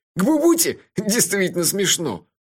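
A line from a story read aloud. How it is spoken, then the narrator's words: Nervous giggle. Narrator (Russian): Мелифара нервно хихикнул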